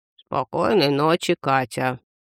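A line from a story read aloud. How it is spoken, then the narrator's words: Creaky voice. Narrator (Russian): сказал чемодан скрипучим голосом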